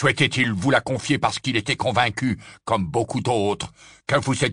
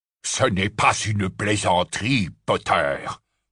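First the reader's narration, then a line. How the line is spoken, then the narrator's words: Growled. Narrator (French): grogna Scrimgeour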